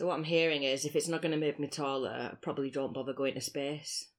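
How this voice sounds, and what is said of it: Speaks with a noticeable accent. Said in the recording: “Is it my accent? ... Yeah.”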